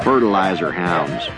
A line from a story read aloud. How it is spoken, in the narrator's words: he said